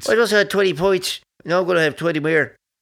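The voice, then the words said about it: Exaggerated put-on Irish accent. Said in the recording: “I don't know why you have to do a different Irish accent to do an Irish accent, even though I got an Irish accent.”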